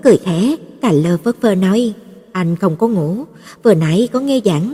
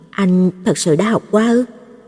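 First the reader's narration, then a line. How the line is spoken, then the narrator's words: Quiet question. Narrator (Vietnamese): Tan Trĩ nhỏ giọng hỏi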